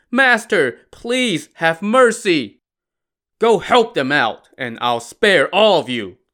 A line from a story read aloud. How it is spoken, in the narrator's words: Lu Zhixian barked